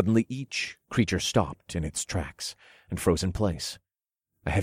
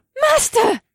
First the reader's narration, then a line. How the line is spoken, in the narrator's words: Akira squealed